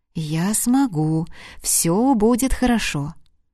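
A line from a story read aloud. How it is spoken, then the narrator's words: Smiling whisper. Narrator (Russian): Марина улыбнулась своему отражению, прошептала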